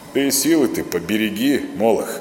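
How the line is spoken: Low, muffled. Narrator (Russian): глухо произнес он

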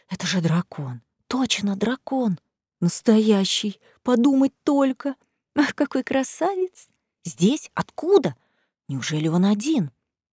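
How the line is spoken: Muffled crowd whisper. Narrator (Russian): По рядам ватным комом катился шепот

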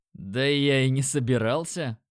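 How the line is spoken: Short laugh. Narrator (Russian): хохотнул я

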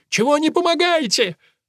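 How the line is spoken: Yelling. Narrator (Russian): Он орал

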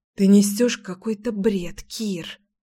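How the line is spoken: Whisper. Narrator (Russian): прошептала я

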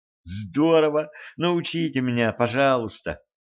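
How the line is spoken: Girl pleading. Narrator (Russian): взмолилась девушка

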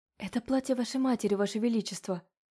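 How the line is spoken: Shy whisper. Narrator (Russian): потупившись, прошептала

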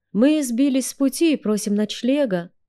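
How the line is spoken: Pleading. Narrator (Russian): умоляющим тоном отозвалась

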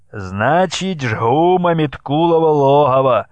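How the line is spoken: Cheerful shout. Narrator (Russian): весело крикнул Богдан

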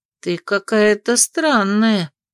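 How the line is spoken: Drawn out. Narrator (Russian): протянула Анна

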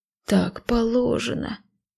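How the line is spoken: Almost sobbing. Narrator (Russian): едва не зарыдал он

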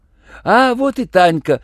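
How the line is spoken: Joyful clamoring voices. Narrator (Russian): радостно заголосили

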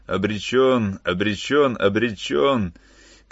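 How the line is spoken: Shouting, then wild laughter. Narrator (Russian): кричал Шрифтен, и вдруг разразился диким хохотом

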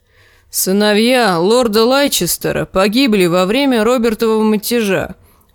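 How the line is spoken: Grumbling. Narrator (Russian): проворчал Лим

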